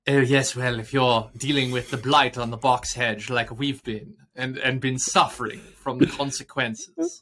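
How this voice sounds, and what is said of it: Attempted posh British accent. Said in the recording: “I love it when we do accents. ... When we attempt an accent. ... It wasn't bad. ... my favorite posh”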